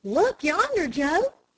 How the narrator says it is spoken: exclaimed Dick

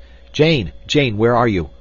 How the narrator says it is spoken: he cried

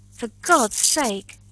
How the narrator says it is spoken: cried Montgomery

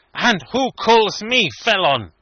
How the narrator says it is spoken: said Obenreizer fiercely

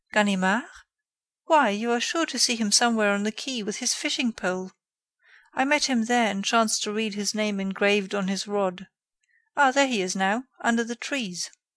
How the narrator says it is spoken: the writer of the article, who exclaimed

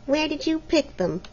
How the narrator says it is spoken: asked Helena sulkily

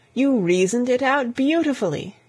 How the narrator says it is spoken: exclaimed, in unfeigned admiration

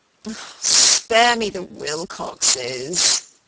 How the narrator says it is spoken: he moaned

